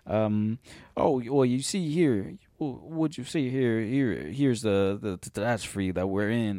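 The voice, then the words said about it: Imitates another person's accent. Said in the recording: “Daniel Craig, you know, with his ... I can't even do a fucking his accent. His accent is very specific.”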